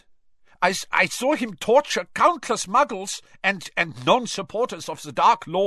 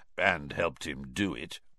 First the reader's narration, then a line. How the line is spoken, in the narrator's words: murmured Moody